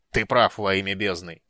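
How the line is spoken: Angry bark. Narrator (Russian): сердито рявкнул Люд

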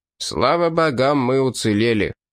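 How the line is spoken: Grumbled. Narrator (Russian): проворчал оливиец

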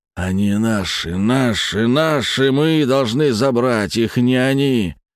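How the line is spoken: Deep growling bass. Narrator (Russian): Голос его изменился, перекатившись до рычащего баса

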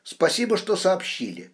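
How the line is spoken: Quick speech. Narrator (Russian): быстро проговорила Шведова

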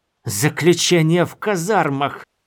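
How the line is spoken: Hissed. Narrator (Russian): зашипела она

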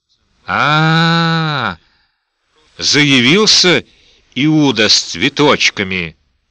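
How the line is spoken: Groaning. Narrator (Russian): простонал Фредди

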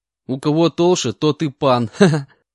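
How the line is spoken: Laughing reply. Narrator (Russian): Рассмеявшись, ответил я

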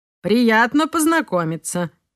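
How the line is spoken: Spoke, then laughed. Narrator (Russian): сказал он и засмеялся

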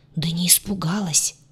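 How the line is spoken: Whisper. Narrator (Russian): также шепотом

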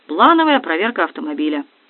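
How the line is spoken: Lazy reply. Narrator (Russian): лениво ... ответил

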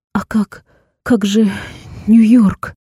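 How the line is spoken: Stammering question. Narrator (Russian): заикаясь, спросила я

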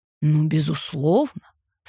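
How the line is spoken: Sarcastic drawl. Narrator (Russian): саркастически протянул он

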